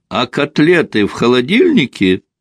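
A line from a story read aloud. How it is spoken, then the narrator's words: Shouted after someone. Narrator (Russian): Он успел лишь крикнуть вдогонку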